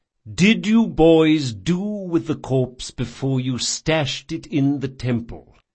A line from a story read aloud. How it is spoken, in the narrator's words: said Chains, speaking slowly as though to a misbehaving pet